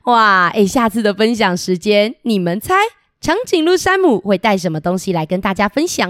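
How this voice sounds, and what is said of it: Usual voice. Nothing is said of it.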